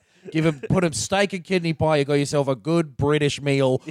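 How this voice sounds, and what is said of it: Put-on accent, sounds Australian. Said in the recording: “which I'm doing the wrong accent for... You went more Australian than usual.”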